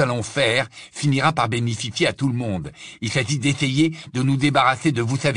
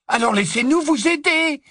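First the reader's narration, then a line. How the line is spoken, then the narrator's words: Angry exclamation. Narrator (French): s'exclama Neville avec colère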